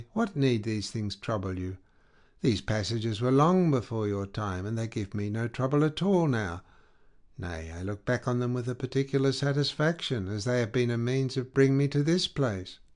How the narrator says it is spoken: says she very kindly

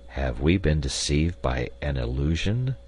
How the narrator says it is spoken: murmured Cyrus Harding

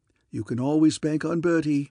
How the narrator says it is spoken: said Claude

